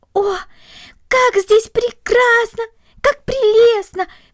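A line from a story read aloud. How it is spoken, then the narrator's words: Delighted exclamation. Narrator (Russian): воскликнула Корнели, полное восхищение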